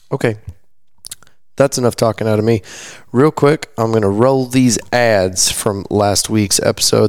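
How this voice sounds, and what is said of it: Strained, failing tired voice. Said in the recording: “My voice is failing me. It was a long weekend.”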